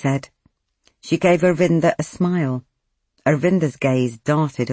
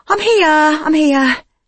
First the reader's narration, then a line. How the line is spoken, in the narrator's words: Sheena said breathlessly